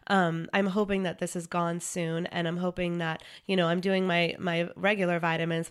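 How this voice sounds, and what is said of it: Sick-sounding voice. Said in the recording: “I'm still sick. I don't know if you can hear it in my voice”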